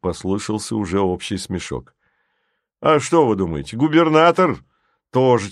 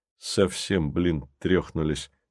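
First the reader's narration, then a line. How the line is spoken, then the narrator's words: Plain. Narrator (Russian): сказал внутренний голос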